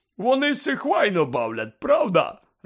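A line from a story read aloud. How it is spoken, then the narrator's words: Joyful question. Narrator (Ukrainian): радісно спитав Гегріт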